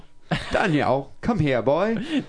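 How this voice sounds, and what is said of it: Put-on accent. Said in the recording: “Nice accent.”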